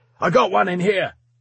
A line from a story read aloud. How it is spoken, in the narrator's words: shouted